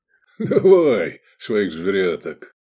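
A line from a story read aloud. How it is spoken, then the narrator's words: Chuckling. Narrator (Russian): хохотнул Квиет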